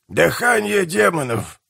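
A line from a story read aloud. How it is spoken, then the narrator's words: Old man's creaky voice. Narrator (Russian): проскрипел старик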